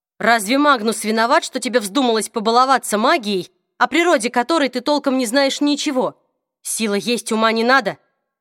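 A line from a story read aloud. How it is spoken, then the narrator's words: Werewolf's snarl. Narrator (Russian): рявкнул оборотень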